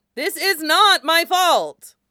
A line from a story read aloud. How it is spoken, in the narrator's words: Wei Wuxian exclaimed, aggravated